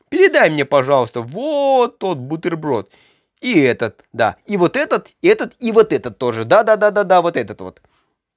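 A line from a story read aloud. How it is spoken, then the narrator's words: Sudden exclamation. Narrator (Russian): Воскликнул вдруг Карлсон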